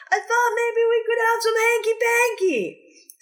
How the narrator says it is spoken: Someone giggles

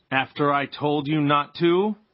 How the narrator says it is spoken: Pa said, in a more terrible voice

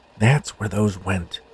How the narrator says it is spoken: whispered to himself

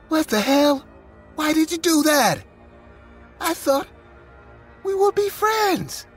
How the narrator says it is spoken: utterly grossed and furious, I screamed

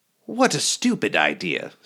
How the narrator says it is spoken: scoffed

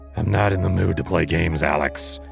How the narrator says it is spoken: he growled

